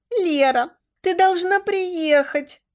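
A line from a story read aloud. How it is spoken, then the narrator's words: Sobbing over phone. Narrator (Russian): рыдала в трубке Маша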